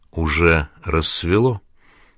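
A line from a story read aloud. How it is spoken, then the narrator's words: Quiet, sad. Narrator (Russian): произнесла тихо и, как мне показалось, печально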